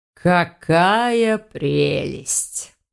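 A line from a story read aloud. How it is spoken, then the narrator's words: Through gritted teeth. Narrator (Russian): процедил сквозь зуб маг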